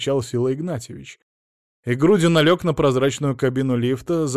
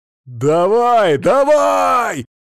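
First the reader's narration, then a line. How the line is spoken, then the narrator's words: Excited shout. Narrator (Russian): азартно закричал Мамонов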